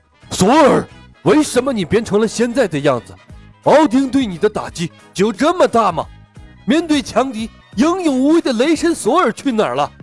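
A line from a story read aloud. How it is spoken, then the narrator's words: Angry roar. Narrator (Chinese): 范达尔愤怒地吼道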